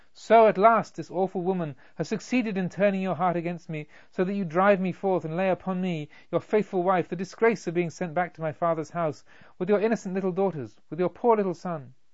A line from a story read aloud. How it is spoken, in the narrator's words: pointed to each other and cried simultaneously